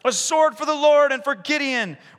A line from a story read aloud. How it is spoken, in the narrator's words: they shouted